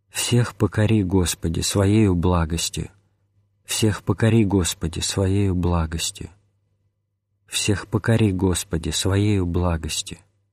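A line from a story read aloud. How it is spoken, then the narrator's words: Old man whispering. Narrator (Russian): старец шептал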